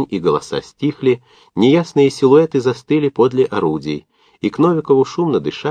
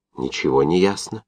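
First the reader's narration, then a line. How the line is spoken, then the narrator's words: Excited whisper. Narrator (Russian): прошептал Овчинников, возбужденным от недавних команд голосом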